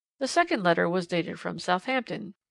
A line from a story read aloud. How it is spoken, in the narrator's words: continued the old man in the corner calmly